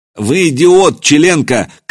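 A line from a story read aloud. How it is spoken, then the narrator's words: Shouted. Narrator (Russian): крикнул Михаил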